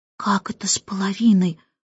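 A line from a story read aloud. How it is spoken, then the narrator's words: Whispered question. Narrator (Russian): шепотом спросил Майкл у Джейн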